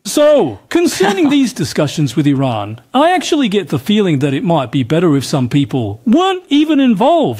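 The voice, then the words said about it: Australian accent. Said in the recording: “the dubbing kind of suddenly went to an Australian accent”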